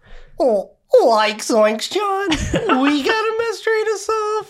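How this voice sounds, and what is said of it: Shaggy cartoon character voice. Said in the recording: “You have to do Shaggy ... That was so good.”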